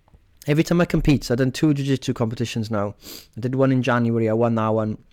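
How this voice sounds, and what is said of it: Hoarse, strained, fading voice. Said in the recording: “My voice is gone. ... my voice goes weirdly after them”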